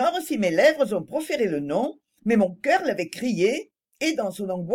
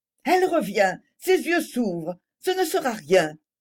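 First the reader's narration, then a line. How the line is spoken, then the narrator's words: Anguished voice. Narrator (French): dit-elle d'une voix angoissée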